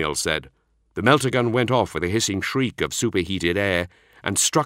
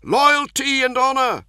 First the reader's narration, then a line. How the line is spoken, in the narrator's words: the Redemptor cried